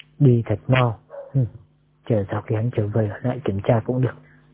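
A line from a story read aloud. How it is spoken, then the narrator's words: Whispered muttering. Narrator (Vietnamese): tôn trưởng lão thì thào lẩm bẩm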